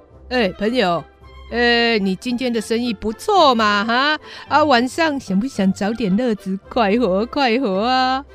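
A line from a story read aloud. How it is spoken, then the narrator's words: Cheerful laughing. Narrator (Chinese): 罗宾汉开朗地笑着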